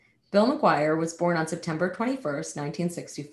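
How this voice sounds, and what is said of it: Usual voice. Nothing is said of it.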